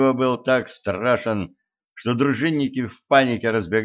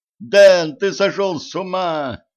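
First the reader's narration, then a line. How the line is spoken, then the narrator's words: Yelling. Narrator (Russian): завопил Ланс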